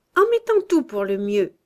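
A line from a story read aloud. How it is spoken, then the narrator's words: Comical shrill older voice. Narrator (French): disait la plus âgée, d'une voix cocasse et suraiguë qu'elle cherchait vainement à adoucir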